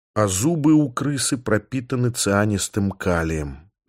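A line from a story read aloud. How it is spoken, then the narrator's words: Whispered. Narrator (Russian): прошептал я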